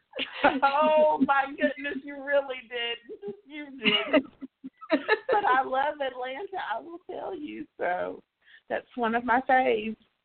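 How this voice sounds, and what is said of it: Southern American (Tennessee) accent. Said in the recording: “I love your accent, actually... I'm a native Tennessean. I live in Memphis... you have such a beautiful accent”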